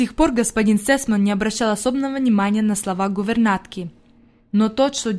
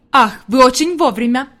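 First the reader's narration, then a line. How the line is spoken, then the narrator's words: Exclaimed. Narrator (Russian): воскликнул господин Сесман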